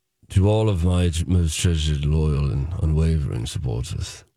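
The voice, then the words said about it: Imitates another person's voice, slightly British. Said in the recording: “read the whole statement as Johnny Depp ... It's getting a little British already”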